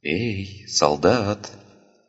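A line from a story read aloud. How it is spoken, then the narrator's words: Whisper in ear. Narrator (Russian): прошептал ему прямо в ухо чей-то голос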